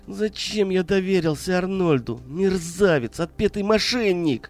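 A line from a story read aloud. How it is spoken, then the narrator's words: Inner groaning thought. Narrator (Russian): мысленно стонал коммерсант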